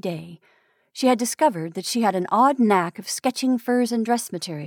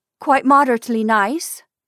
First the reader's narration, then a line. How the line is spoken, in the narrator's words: she said, her voice cold and hard and absent